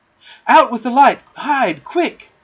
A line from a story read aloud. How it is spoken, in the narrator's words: cried John, taking command